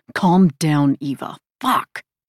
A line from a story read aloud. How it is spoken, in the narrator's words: hissing